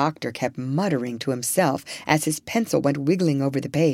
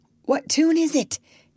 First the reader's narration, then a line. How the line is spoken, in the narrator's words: gasped the doctor